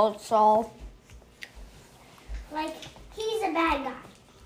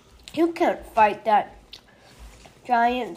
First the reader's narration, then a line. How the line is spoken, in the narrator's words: said Saul